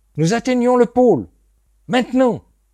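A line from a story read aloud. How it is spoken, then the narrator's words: Sudden shout. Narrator (French): cria soudain Tripp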